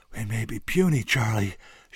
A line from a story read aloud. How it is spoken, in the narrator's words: puffed, gasping for breath